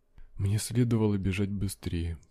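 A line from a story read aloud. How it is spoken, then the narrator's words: Whisper. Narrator (Russian): прошептал я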